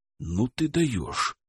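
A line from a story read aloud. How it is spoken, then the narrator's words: Whisper in ear. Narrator (Russian): шепнул ему на ухо Александр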